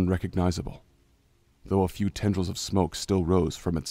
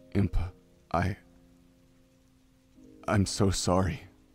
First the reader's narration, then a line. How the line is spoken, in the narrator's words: Link said at last, forcing the words out, his voice strained